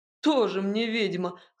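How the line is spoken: Scoffing. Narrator (Russian): хмыкнул его сосед

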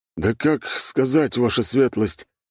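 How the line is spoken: Confused mutter. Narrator (Russian): растерянно пробормотал Кожедуб

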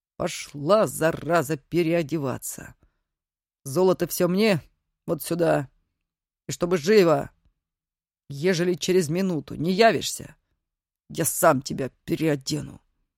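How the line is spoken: Growled. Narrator (Russian): рыкнул

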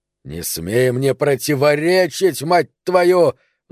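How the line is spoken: Angry roar. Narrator (Russian): взревел Пономарь

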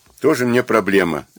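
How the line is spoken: Breathless snort. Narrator (Russian): фыркнула она, все еще переводя дыхание

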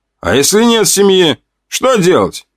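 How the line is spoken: Soldier's short laugh. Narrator (Russian): хохотнул один из бойцов

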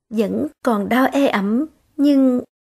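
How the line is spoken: Faint wry smile. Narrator (Vietnamese): Phương Kiều hơi nhếch miệng cười

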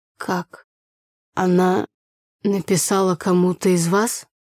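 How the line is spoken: Crestfallen voice. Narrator (Russian): упавшим голосом проговорил папа

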